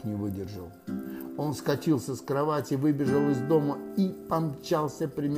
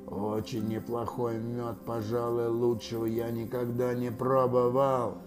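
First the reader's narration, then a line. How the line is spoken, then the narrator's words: Creature growling. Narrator (Russian): 587-й слонопотам прорычал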